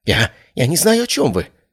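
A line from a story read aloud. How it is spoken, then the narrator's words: Babbling. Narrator (Russian): залепетал он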